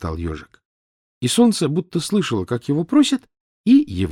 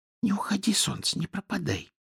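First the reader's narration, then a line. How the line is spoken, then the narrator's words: Sleepy whisper, hedgehog. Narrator (Russian): ложась спать, шептал ежик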